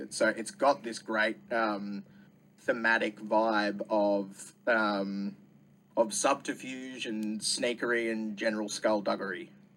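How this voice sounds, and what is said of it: Australian accent. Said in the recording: “you can hear from the accent that you are from ... Australia”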